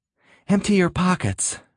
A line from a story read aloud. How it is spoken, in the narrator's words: she gasped